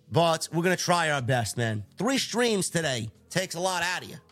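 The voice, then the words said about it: Hoarse, tired voice. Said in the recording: “My voice is hoarse. I'm sickly. I'm tired.”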